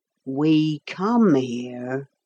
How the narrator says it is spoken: said the carpenter slowly

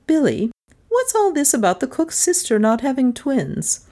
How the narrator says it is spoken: She said in an offhand voice

